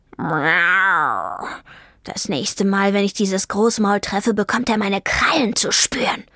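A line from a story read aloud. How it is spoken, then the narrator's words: Hissed. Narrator (German): fauchte Vivaldi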